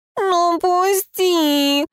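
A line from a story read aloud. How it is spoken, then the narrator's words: Nasal whine. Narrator (Russian): гнусавил Фьор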